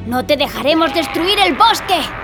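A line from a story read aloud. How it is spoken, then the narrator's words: Shouted. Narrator (Spanish): grita Lucas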